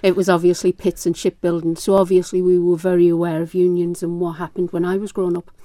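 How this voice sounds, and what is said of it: Northeast English accent. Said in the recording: “with this accent, you know I'm from the northeast of England.”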